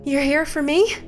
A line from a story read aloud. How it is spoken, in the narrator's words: panted an out-of-breath Chelsea